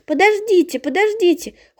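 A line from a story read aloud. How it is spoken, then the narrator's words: Urge to shout. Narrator (Russian): хочет крикнуть Таня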